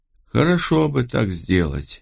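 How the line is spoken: Sigh. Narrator (Russian): вздохнул

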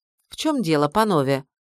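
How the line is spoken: Proud, dry tone. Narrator (Russian): гордо и сухо сказала я

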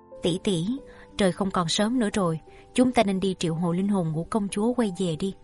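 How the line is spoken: Gentle female voice. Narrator (Vietnamese): Nàng nhẹ nhàng nói

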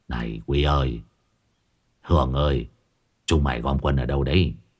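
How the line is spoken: Sighing. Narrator (Vietnamese): Năm Lát thở dài

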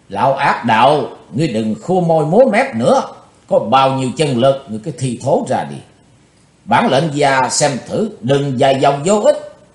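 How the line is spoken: Deep heavy shout. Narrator (Vietnamese): Chí Tôn phấn chấn, trầm nặng hét to lên

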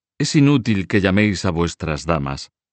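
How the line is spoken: Curt king. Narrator (Spanish): dijo secamente el rey

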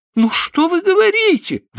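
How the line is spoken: Exclamation. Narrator (Russian): воскликнула она

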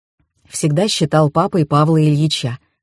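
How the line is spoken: Calm explanation. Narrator (Russian): спокойно пояснил бизнесмен

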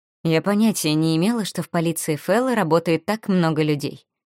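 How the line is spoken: Quiet. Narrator (Russian): тихо сказала мне Вив

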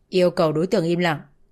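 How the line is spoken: Stern commanding tone. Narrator (Vietnamese): Người sĩ quan nghiêm ngặt nói với Tuấn bằng giọng ra lệnh

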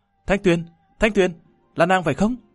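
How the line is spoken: Excited, astonished shout. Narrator (Vietnamese): Lâm Văn Vinh cũng không giấu nổi hưng phấn lẫn kinh ngạc, nhảy dựng lên hét to

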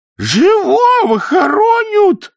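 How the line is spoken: Woman wailing loudly. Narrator (Russian): завопила женщина

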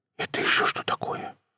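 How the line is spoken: Surprised whisper. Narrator (Russian): прошептал удивленный Круглов

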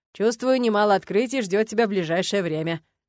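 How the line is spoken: Wry snort. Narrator (Russian): хмыкнул Арни

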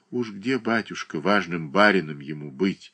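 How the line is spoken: Sighing. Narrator (Russian): вздохнула Марья Дмитриевна

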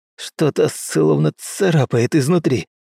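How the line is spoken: Hoarse wheeze. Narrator (Russian): просипел Мэйд

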